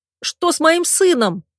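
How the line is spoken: Screaming through angry tears. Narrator (Russian): закричала я, глотая злые слезы

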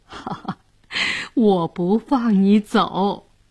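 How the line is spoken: Laughing. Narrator (Chinese): 姑姑 笑着说

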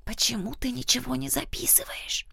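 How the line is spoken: Whisper. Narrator (Russian): прошептала она

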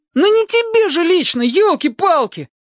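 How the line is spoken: Howl. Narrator (Russian): Опять взвыл Костя

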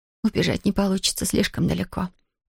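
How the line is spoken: Breathless whisper. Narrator (Russian): прошептала Зия, часто дыша

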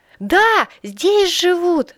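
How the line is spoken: Shouting through door. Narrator (Russian): закричал Илья в еще закрытую дверь

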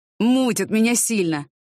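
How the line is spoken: Moaning. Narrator (Russian): застонал Виталий Николаевич

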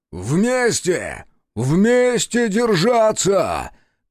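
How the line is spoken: Open shout. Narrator (Russian): крикнул, уже не скрываясь, Захар

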